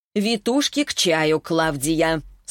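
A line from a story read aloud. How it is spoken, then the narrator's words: Stern. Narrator (Russian): строго сказала Инесса Леонардовна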